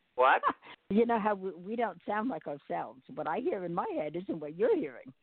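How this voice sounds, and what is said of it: Heavy New York accent. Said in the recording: “I still have a very heavy New York accent”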